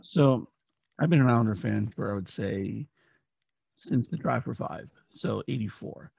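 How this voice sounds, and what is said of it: Hoarse, partly lost voice. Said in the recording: “As you can tell, I lost my voice a little bit, like many Islander fans from Thursday night”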